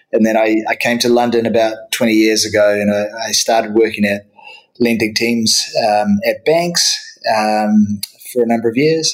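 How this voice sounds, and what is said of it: New Zealand accent. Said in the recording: “my home country of, of New Zealand. So that, that explains the accent ... having to guess whether I'm Australian or New Zealand”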